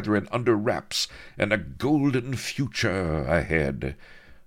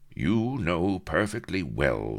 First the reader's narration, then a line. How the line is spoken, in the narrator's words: said Avery, coldly